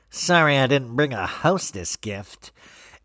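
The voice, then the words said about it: Nasal impression of Erica Jane. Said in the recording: “I'm trying to get an Erica Jane impersonation. Not that any of my impersonations are great ... She like speaks so nasally.”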